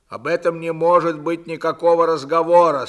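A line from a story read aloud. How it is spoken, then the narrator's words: Stern. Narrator (Russian): строго сказал Длугач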